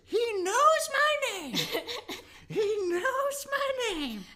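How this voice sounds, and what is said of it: Impression of a TV character's voice. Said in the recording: “That's a great Charlie.”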